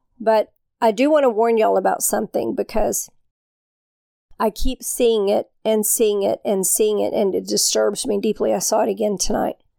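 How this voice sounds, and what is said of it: Tired, weak voice. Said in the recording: “forgive my voice, please ... I'm a little bit tired, so sometimes my voice gets a little bit weak.”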